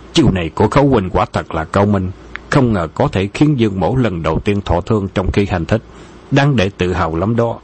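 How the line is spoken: Menacing gritted voice. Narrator (Vietnamese): Dương Hư Ngạn đưa ống tay áo lên lau vết máu trên khóe miệng, song một lỗ lấp lánh hung quang, gằn giọng nói

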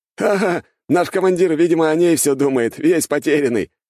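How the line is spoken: Guffawing group. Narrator (Russian): хохотали бойцы

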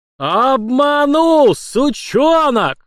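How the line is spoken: Furious roar. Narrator (Russian): взревел он

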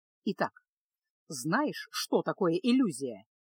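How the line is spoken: Serious instructive tone. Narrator (Russian): серьезным поучительным тоном спросил Кайл

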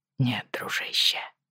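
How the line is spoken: Quiet reply. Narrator (Russian): тихо ответил Джейми

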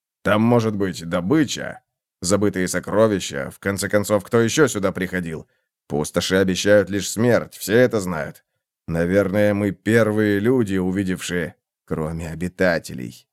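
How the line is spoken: Mumbled. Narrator (Russian): пробормотал Раутос

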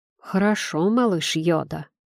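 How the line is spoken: Muttered. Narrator (Russian): пробормотал я

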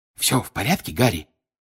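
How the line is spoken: Whisper. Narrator (Russian): прошептал Бегман

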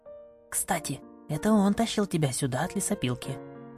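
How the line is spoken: Whisper. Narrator (Russian): шепнула я Ами

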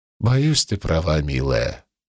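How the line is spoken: Sad reply. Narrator (Russian): грустно ответил Цицерон

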